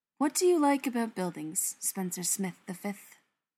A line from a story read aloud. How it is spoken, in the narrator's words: Brendan asks dreamily